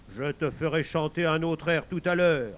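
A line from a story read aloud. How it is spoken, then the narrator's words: Grunted. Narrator (French): grogna-t-il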